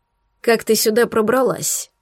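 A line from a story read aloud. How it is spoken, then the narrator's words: Dry question. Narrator (Russian): спросил он сухо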